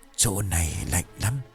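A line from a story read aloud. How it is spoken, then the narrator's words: Near whisper. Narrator (Vietnamese): Dũng cất tiếng nói khẽ gần như thì thầm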